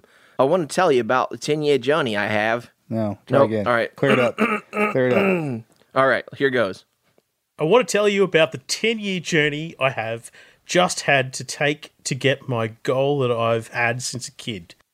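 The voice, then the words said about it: Put-on Australian accent. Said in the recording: “I'm going to try to do it in my Australian accent ... Try to do it as good as mine ... That sounds pretty good.”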